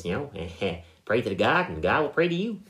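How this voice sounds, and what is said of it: Cartoon character impression voice. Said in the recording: “your best Ned Flanders impression”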